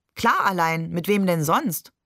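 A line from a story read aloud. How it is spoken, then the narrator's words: Laughing question. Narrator (German): fragte Barbe und lachte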